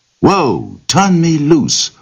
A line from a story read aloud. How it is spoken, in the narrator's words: the rabbit cried